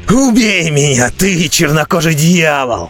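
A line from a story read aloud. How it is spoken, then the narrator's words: Roared. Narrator (Russian): взревел он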